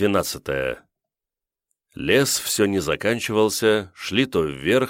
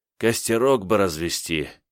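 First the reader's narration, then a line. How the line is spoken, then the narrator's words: Dreamy sigh. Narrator (Russian): мечтательно вздохнул Ганыкин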